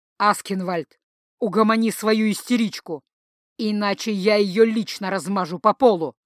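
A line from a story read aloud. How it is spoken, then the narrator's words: Furious, through gritted teeth. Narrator (Russian): процедил вот сейчас уж точно не Дан, а герцог Арверийский, взбешенный герцог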